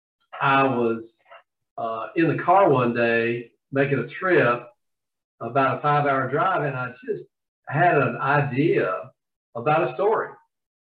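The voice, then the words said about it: Southern US accent. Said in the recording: “as you can probably tell from my accent, I'm from the South.”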